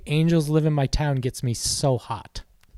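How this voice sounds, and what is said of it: Sultry, seductive voice. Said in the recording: “in a sexy voice”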